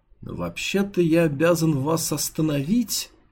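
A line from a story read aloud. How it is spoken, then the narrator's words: Uncertain guard. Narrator (Russian): неуверенно произнес охранник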